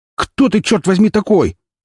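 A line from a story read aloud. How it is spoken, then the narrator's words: Shout. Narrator (Russian): закричал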